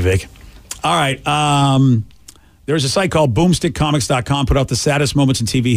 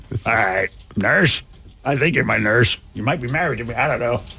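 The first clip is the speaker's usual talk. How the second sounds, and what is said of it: Impression of a confused old man. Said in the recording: “I think I did a great impression of you when you're old.”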